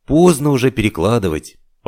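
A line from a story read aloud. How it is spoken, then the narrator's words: Sighing. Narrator (Russian): вздохнул Байстрюк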